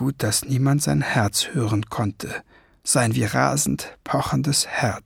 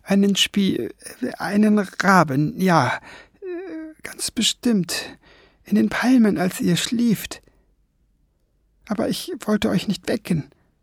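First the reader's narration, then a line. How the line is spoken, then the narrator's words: Stammering. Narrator (German): stammelte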